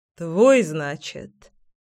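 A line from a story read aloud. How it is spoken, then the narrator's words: Smug snort. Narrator (Russian): самоуверенно хмыкнул Семён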